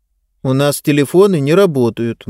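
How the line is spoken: Gloomy. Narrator (Russian): мрачно сказала Диба

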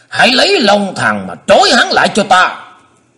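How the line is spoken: Shouted order. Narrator (Vietnamese): Tứ Hải Thiên Dương thét bảo thủ hạ

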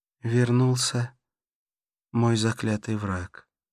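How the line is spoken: Sighing. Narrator (Russian): вздохнула она

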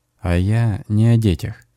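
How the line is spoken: Soft, smiling. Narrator (Russian): мягко улыбнулся Леша

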